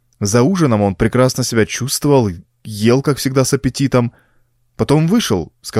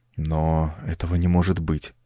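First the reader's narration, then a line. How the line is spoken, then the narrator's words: Hesitant mumble. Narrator (Russian): промямлил я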